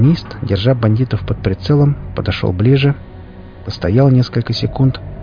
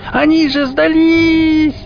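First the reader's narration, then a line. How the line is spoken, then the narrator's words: Loud hoarse cracking shout. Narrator (Russian): Громко, до хрипоты, в сорвавшемся голосе крикнула Хип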